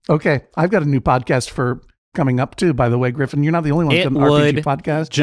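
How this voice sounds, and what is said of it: Usual voice. Nothing is said of it.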